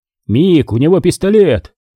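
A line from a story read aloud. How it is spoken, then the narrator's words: Shout. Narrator (Russian): крикнул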